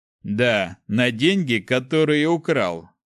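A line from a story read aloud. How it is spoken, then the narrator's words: Snorting. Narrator (Russian): хмыкнул Снег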